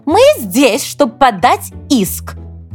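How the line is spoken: Exclaimed. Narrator (Russian): воскликнула Милдред

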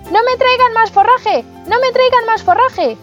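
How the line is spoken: Panicked full-force scream. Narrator (Spanish): presa del pánico, gritó con todas sus fuerzas

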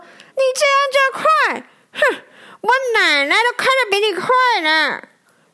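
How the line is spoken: Loud roar. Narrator (Chinese): 路霸大声的吼叫说

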